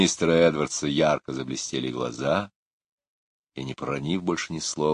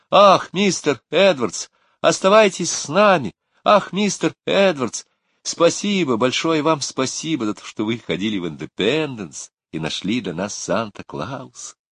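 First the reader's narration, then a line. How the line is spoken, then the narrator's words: Impolite exclamation. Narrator (Russian): Лора, забыв про вежливость, воскликнула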